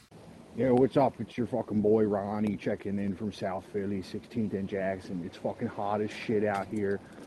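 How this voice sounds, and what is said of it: Strong Philadelphia accent. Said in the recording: “send me something in your terrible Philly accent”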